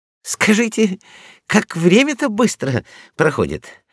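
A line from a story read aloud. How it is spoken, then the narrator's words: Sighing. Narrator (Russian): вздохнул Мопса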